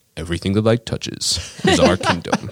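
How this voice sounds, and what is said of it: Imitates a film character's voice. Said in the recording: “my character voice is based off of Mufasa ... James Earl Jones does Mufasa ... I'm doing James Earl Jones Mufasa like lines”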